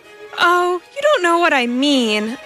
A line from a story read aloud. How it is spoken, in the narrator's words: responded, a trifle irritably